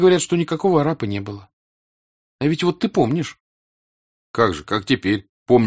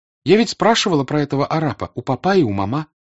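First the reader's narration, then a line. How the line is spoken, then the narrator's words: Plain. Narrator (Russian): сказала Наташа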